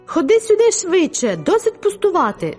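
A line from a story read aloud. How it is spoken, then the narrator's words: Exclaimed. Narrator (Ukrainian): вигукнув Луїс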